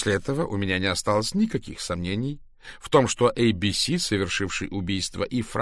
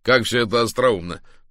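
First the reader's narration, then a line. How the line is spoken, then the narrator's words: Sudden laugh. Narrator (Russian): неожиданно рассмеялся Кларк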